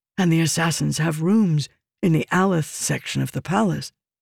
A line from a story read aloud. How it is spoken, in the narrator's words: Nelshenden whispered